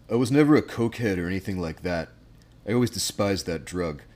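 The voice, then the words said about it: Imitates another person's voice. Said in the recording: “I'll do my best Johnny Depp impression.”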